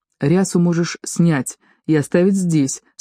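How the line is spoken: Plain. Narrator (Russian): сказал он Теори

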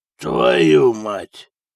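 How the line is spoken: Hoarse rasp. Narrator (Russian): прохрипел он

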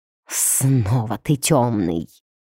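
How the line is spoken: Furious vampire hissing. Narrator (Russian): прошипел разъяренный вампир

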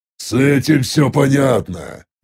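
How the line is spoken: Displeased tone. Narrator (Russian): недовольным голосом произнес я

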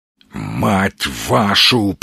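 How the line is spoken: Growled. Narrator (Russian): прорычал Сергей

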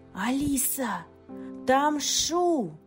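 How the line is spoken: Yelling. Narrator (Russian): заорал Инг

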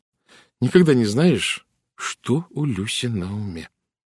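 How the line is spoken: Slow. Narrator (Russian): медленно сказала Генриетта

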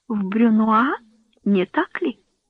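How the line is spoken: Calm. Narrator (Russian): продолжала Эстер по-прежнему спокойно

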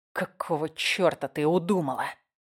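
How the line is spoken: Hissing, barely restrained anger. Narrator (Russian): прошипел я, едва сдерживая гнев

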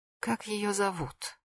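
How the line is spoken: Asked very quietly. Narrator (Russian): очень тихо спросила Нателла Георгиевна

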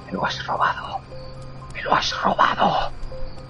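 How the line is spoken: Whispering voice. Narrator (Spanish): una voz que susurraba

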